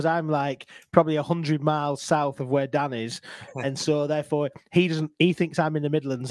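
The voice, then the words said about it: Northern English accent. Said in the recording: “I've got this dulcet Northern tone... they think I've got a funny accent”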